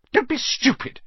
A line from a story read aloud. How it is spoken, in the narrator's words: snapped Aunt Petunia